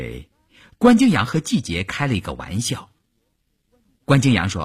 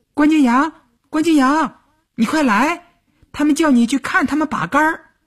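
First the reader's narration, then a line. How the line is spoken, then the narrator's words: Shouted. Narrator (Chinese): 喊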